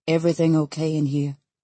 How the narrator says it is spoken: Callum asks, his tone oddly gentle

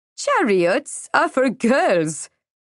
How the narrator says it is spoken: she laughed

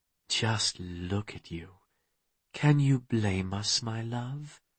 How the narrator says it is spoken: murmuring down at him

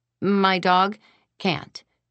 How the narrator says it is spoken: I said

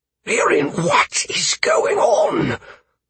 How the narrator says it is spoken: the Bon whispered fiercely to me

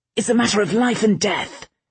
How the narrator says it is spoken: Vale snapped

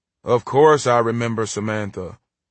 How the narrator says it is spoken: Ernie grumbled, his voice groggy from car sleep

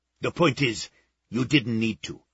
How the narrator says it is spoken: Czar snapped

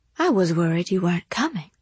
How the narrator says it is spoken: he whispered

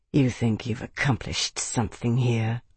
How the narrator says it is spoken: Navaris said quietly

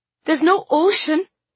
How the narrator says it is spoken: exclaimed

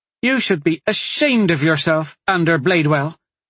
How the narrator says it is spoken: Amelie snapped

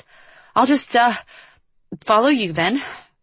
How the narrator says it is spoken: Liv called after her, weakly

